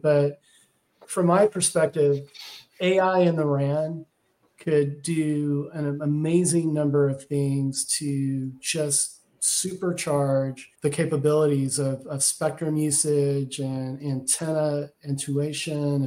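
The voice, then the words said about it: Texas accent. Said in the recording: “that's my Texas accent coming out”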